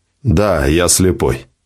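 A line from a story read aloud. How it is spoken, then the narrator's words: Cold reply. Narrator (Russian): холодно ответил гонщик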